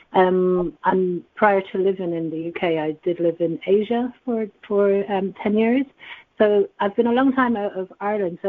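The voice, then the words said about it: Subtle Irish accent. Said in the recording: “the Irish accent ... A lot of people don't pick it up, actually”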